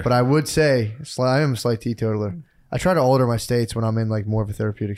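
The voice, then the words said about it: Slightly hoarse voice. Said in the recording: “Sorry if I'm a little hoarse. ... Yeah, I was hollering.”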